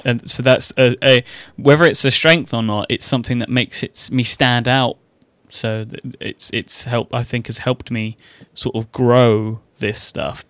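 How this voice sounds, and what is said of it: British accent. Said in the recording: “I'm a British person ... I'm the British guy ... my voice is more distinctive”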